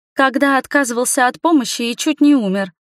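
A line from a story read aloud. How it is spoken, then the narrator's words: Joyful exclamation. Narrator (Russian): воскликнула радостно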